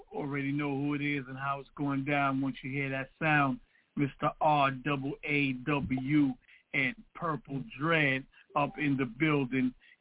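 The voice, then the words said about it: Strained voice cutting in and out. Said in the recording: “excuse my voice ... my voice is still, you know, from being too hype. You know, I'm going in and out”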